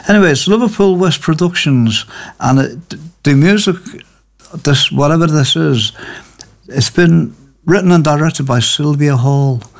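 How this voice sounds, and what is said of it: Voice sounds off, unwell. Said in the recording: “my voice sounds a little bit. It doesn't sound like my normal self today”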